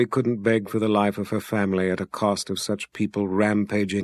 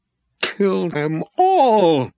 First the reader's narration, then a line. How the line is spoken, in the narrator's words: Abby screamed up at the wizard